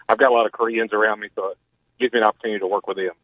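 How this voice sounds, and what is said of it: Southern US Alabama accent. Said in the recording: “I'm from Alabama. You can tell my accent.”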